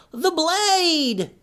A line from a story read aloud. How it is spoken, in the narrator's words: she screamed